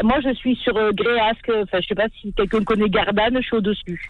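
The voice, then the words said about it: Southern French Marseille accent. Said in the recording (French): “j'adore ton accent ... C'est le soleil qui nous parle ... c'est beau, les accents. Marcel Pagnol”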